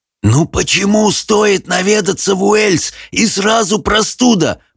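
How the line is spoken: Hoarse croak. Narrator (Russian): прохрипел Хоул

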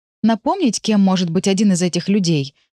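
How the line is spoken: Irritated hiss. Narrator (Russian): Раздраженно шиплю

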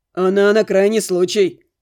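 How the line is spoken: Wry snort. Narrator (Russian): хмыкнул Максим

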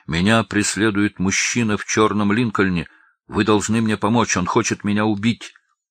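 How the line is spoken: Female shout. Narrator (Russian): Келли крикнула

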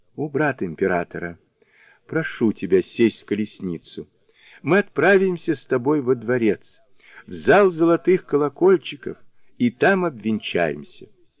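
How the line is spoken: Tender queenly voice. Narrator (Russian): государыня подошла к танскому монаху, взяла его за руку и нежным голосом проговорила

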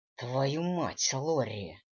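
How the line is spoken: Growl. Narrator (Russian): рыкнул Дэниел

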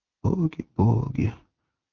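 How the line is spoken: Whispering. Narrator (Russian): начнет шептать Иван Николаевич

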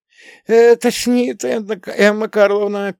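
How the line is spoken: Squeaking. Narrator (Russian): пискнула она

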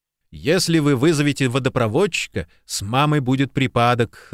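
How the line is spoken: Burst of laughter. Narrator (Russian): расхохотался Джимми

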